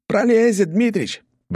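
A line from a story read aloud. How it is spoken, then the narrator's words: Shouted. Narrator (Russian): выкрикнул один из работников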